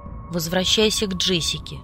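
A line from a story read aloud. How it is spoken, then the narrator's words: Commanding tone. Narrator (Russian): приказным тоном велел голос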